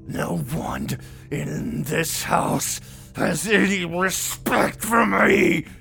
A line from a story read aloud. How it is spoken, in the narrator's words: screamed